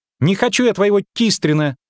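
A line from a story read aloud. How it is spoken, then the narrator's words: High-pitched girl's shriek. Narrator (Russian): тонко взвизгнула девочка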